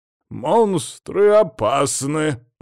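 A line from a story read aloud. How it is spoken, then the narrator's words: Grumbling. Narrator (Russian): проворчал Адамыч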